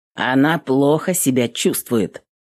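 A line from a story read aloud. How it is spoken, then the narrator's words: Rude, curt. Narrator (Russian): грубо отрезал он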